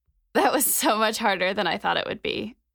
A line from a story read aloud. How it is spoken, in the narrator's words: Mac said between breaths